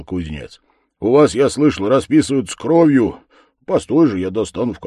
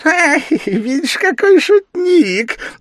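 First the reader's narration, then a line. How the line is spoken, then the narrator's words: Laughing shout. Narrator (Russian): закричал, смеясь, черт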